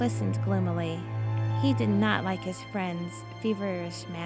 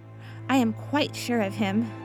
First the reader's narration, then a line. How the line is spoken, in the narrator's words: replied Jekyll